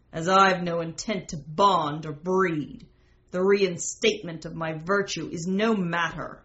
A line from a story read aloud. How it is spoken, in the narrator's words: Sherlock sneered at the letter and said to the empty air